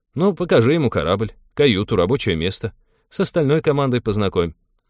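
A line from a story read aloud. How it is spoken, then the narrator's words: Brisk cheerful suggestion. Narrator (Russian): бодро предложил капитан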